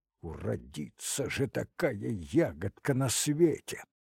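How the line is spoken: Muttered through teeth. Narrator (Russian): сквозь зубы пробормотал Лопахин

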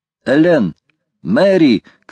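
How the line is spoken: Shout. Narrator (Russian): крикнул Гленнерван

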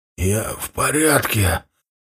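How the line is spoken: Strained wheeze. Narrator (Russian): собравшись силами, секунд через 10 прохрипел я

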